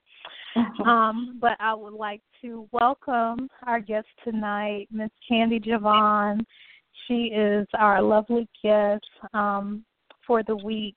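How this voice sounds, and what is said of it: Hoarse voice. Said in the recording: “I'm a little hoarse, which just came out of nowhere”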